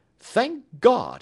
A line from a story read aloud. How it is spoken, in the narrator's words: he cried